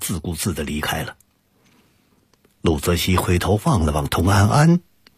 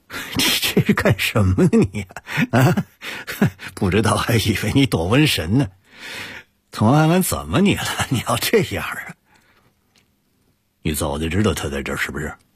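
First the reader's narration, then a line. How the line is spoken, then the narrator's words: Half-joking. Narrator (Chinese): 杜泽西半开玩笑地说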